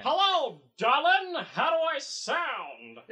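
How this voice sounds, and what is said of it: Old-fashioned Transatlantic accent. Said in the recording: “You sound like you're from a different era. Transatlantic accent”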